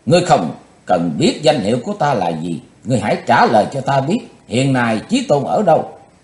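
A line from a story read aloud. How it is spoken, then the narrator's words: Shouted. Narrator (Vietnamese): Quỳnh Giao ... quát lên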